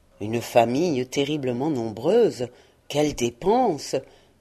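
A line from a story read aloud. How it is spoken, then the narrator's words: Murmured. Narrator (French): murmura Scrooge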